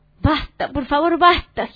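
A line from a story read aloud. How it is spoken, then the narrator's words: Exhausted man moaning. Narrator (Spanish): gimió el dueño del circo al concluir su número vuelta 200 alrededor de la carpa, caminando sobre las manos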